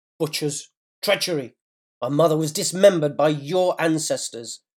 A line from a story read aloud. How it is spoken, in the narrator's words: snarled